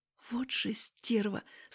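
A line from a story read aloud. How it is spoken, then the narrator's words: Whisper. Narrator (Russian): шепот Альбины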